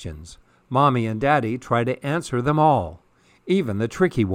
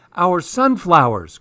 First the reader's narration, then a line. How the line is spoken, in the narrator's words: cries Poppy